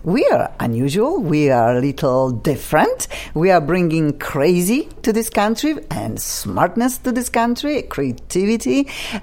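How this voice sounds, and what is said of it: Polish accent. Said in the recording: “funky accent. I'm originally from Poland”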